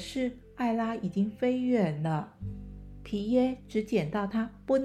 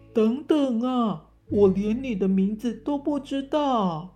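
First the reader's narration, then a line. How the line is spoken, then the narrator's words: Shouting while chasing. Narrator (Chinese): 皮耶追着大喊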